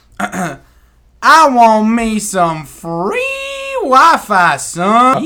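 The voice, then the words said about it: Put-on Southern hillbilly accent. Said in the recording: “please read this in a hillbilly accent ... We're talking about southern accent, ... southern, ... Yeah, hillbilly's a little more.”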